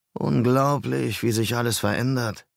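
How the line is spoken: Sighing. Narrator (German): seufzte

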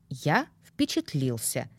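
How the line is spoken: Dry reply. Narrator (Russian): сухо отозвался некромант

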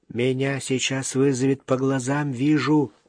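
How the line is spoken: Whisper. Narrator (Russian): шепнул Юрка

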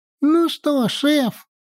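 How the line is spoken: Thin squeaky voice. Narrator (Russian): снова пропищал тонкий голосок

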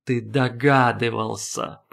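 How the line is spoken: Drawn-out, strained voice. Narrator (Russian): протянул Шанур, как будто голосу его приходилось выдираться из пут из колючей проволоки и склизи, осенней глинистой склизи

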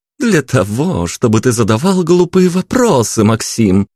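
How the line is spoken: Exclaiming. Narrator (Russian): воскликнула девушка

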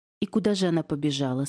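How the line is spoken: Plain. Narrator (Russian): спросила я

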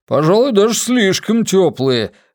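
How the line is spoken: Man shouting from corner. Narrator (Russian): выкрикнул к всеобщей радости из угла лысеющий продюсер

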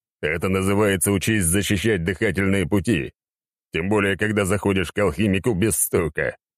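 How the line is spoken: Amused snort. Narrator (Russian): хмыкнул я

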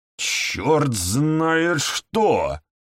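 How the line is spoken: Exclamation. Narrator (Russian): воскликнул Мастерс

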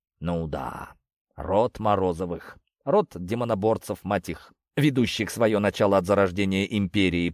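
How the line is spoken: Disdainful through teeth. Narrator (Russian): пренебрежительно процедил

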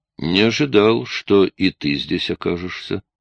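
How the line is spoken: Plain. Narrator (Russian): сказал Джейк

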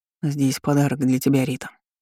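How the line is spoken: Calm reply. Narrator (Russian): спокойно ответил мужчина

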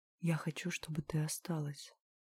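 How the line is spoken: Whisper. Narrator (Russian): шепнул он

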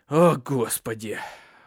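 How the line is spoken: Sighing. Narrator (Russian): вздохнул Крузе

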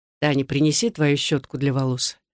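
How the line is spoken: Said quietly. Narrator (Russian): тихо сказал

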